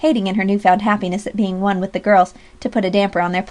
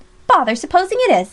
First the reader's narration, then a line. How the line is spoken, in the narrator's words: exclaimed Alexia